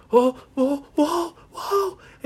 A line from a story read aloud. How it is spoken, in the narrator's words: he started yelling